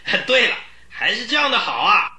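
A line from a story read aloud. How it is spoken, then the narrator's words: Child shouting loudly outside. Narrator (Chinese): 门外有人这么高声大嚷起来，嚷叫的人就是叶琴斯那个孩子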